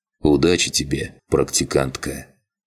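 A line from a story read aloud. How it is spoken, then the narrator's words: Quiet. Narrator (Russian): Чапай тихо произнес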